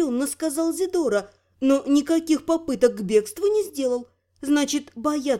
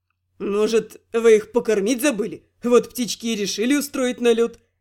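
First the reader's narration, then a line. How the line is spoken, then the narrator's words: Snort. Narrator (Russian): хмыкнул Рент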